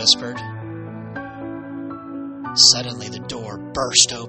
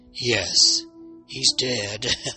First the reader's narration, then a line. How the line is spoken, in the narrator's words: the man chuckled